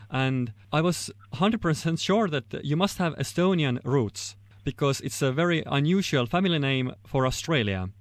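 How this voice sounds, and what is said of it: Estonian accent. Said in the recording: “in that Estonian accent of yours and with the kind of way that the Estonian language sounds”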